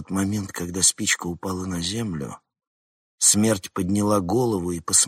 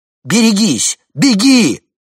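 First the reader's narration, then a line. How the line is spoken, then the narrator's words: Screamed. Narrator (Russian): Флора закричала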